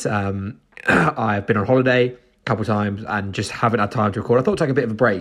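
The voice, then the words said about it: Flu-affected, congested voice. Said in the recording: “I've got a bit of a flu, as you can tell by my voice.”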